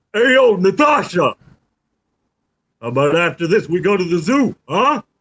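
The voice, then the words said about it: Rocky Balboa movie character voice. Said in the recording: “doing a Rocky voice”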